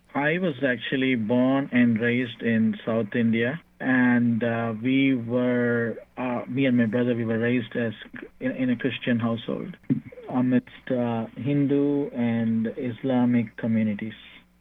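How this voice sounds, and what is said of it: Noticeable non-American accent. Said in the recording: “you definitely have an accent”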